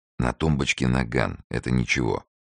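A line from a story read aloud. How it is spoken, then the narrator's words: Whispered account. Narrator (Russian): шепотом рассказывал Фондорин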